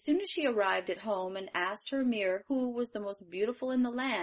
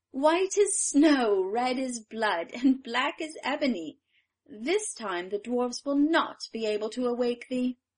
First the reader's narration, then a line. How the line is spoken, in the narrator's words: the wicked queen ... laughed aloud as she exclaimed